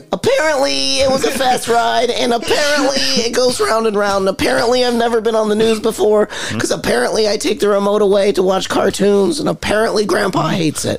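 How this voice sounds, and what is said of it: Imitates a little kid's voice. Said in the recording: “That's a great impression.”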